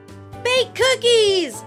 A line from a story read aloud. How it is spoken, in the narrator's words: Lizzie and Sam shouted